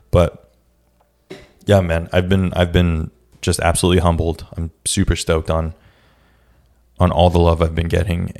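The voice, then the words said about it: Raspy, slightly cracking voice. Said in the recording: “my sometimes cracking voice ... I got a little bit of a raspy voice today”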